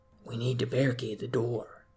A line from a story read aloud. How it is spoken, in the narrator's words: Jackson whispered